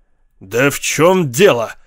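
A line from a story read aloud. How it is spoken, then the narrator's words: Growl. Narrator (Russian): зарычал Эд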